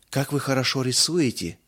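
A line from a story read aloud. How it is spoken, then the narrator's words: Breathy exhale. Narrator (Russian): выдохнула Мирца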